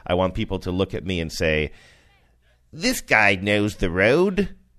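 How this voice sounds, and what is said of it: Pretty good put-on Australian accent. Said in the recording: “I think that's a pretty good Australian accent.”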